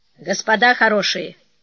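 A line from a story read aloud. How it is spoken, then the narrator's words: Commanding tone. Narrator (Russian): командным тоном распорядился Гинкель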